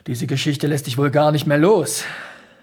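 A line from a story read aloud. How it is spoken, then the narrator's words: Sighing. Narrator (German): seufzte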